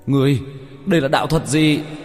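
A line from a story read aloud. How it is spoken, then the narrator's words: Pained, angry yell. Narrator (Vietnamese): Hắn kêu thảm một tiếng, giận dữ hét lên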